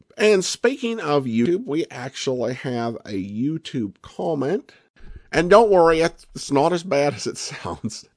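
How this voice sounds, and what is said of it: Strong country accent. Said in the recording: “your accent is the most country thing I've ever heard ... country, I could kind of go with that”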